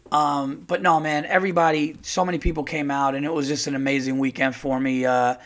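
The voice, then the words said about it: Slightly hoarse voice. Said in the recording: “my voice is a little hoarse ... It was just a lot of shows, back-to-back shows, and a lot of time on stage”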